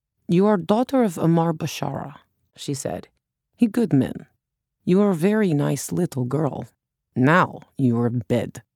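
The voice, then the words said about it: Thick foreign accent. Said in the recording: “spoke with a thick accent”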